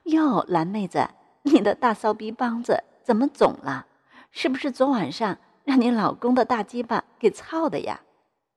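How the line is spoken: Laughing. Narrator (Chinese): 刘丽笑道

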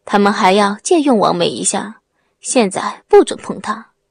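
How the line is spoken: Cold voice. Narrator (Chinese): 冷声的说

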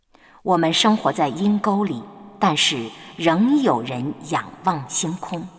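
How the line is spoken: Wistful exclamation. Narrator (Chinese): 王尔德曾经感叹的

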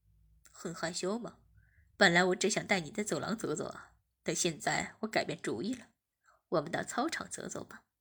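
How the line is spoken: Smiling. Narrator (Chinese): 阿坚笑了笑，便说

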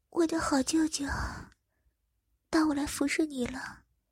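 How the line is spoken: Gentle, tender. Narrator (Chinese): 眼神非常温柔的看着我说

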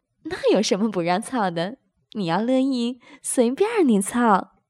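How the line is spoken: Laughing. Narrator (Chinese): 高芳笑道

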